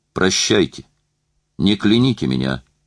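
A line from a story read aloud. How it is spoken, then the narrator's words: Distant muffled shout. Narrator (Russian): Она крикнула из трансформатора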